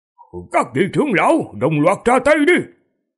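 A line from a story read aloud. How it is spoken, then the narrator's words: Cold laugh, loud shout. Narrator (Vietnamese): Tiễn Khung cười lạnh, quát to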